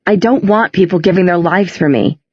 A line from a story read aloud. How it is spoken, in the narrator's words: he cried